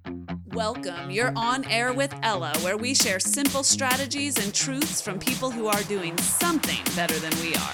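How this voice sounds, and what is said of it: Radio announcer voice. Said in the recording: “I'm going to use my announcer voice the whole time ... in a different voice”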